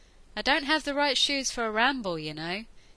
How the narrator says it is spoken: Ianto called out after a moment

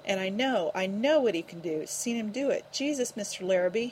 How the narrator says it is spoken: he groaned, almost sick with anguish

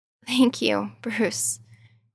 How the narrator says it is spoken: choked out

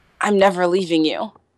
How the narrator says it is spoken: Keely whispers

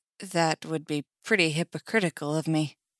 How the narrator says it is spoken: says Eddie, and his voice trembles

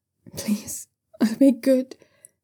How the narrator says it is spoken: young Xiu Xian cries on the other side of the door, a weak

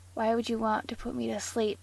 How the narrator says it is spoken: Castiel muttered

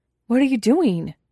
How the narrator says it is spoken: blurts, scrambling to his feet

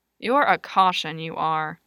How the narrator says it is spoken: Lewis muttered

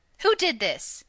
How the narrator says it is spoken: he'd shout

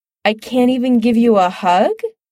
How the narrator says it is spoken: Chris asks, holding back a laugh

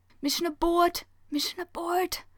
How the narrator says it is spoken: Hayato hissing

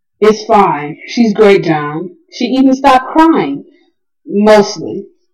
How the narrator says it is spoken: Rodney said

